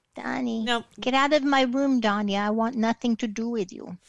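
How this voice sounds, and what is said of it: Baby voice, generic accent impression. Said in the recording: “I'm lapsing into a baby voice ... I just do a generic accent for her, and I didn't manage to get that right”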